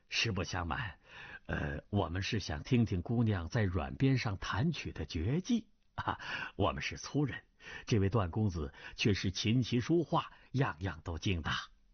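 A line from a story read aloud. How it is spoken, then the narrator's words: Suspicious laughing. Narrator (Chinese): 崔百全疑心更甚，笑道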